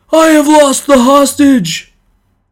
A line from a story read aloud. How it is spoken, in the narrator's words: The man who had lost him cried out in a loud voice